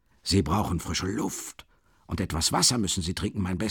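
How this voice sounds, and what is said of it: Usual voice. Nothing is said of it.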